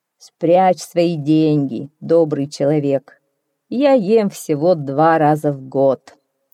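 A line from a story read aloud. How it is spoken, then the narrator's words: Booming laugh, then speaking. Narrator (Russian): Незнакомец рассмеялся так громко, что зазвенела стоявшая на столе посуда, и сказал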